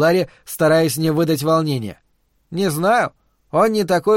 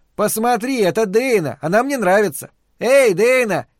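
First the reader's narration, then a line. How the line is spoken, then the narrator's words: Shouted. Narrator (Russian): закричал он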